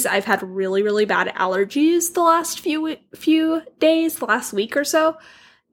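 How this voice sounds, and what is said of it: Hoarse voice. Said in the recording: “I'm a little hoarse today, so I apologize if my voice is driving you crazy”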